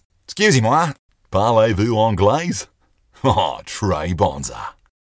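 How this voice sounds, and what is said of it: French spoken with heavy Australian accent. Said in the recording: “my Australian accent, such as it is, coming across to native hearers”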